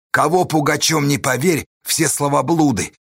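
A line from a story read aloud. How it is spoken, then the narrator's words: Shouted. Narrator (Russian): Корнила крикнул скитникам, Гермону, Павлу и Калинику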